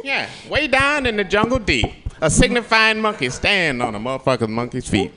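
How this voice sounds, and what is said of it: Impression of Rudy Ray Moore's Dolomite. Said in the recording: “Dolomite. Rudy Ray Moore's character ... that cool impression”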